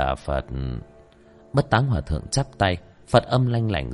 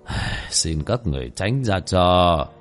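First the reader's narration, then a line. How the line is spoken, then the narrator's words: Monk's sigh. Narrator (Vietnamese): Bất Táng Hòa Thượng thở dài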